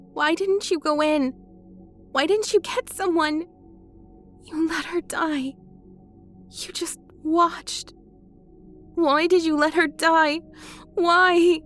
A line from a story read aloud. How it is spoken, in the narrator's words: she asked, choking, becoming frantic